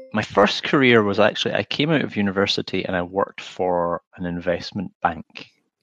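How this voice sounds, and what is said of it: Scottish accent. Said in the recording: “It's a very difficult word to say in a Scottish accent, law. A lot of people don't understand when I say that.”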